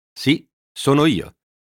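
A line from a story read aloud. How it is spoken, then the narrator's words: Triumphant. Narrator (Italian): disse in tono trionfante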